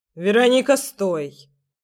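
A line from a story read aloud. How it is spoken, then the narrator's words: Sharp voice. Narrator (Russian): резко прозвучал его голос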